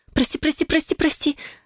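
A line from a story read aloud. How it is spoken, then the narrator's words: Frightened mumbling. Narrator (Russian): забормотала испуганно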